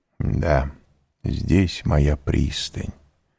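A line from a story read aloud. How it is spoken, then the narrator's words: Quiet. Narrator (Russian): тихо прибавил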